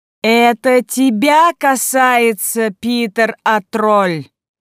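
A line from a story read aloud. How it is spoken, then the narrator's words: Thundering voice. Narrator (Russian): прогремел голос Роксаны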